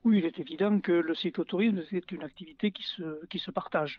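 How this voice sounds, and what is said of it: Gravelly southwestern French accent. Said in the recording (French): “vous avez un accent, un accent rocailleux du sud-ouest”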